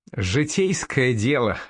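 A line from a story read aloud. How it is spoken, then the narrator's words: Short laugh. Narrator (Russian): хохотнул Лунд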